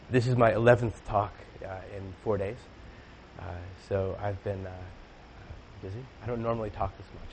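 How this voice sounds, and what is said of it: Voice much deeper than usual. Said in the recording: “my voice is 2 octaves lower than it normally is”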